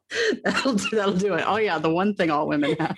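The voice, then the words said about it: Poor put-on British accent. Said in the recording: “why am I suddenly doing a British accent? ... has become British. ... Wow, terrible.”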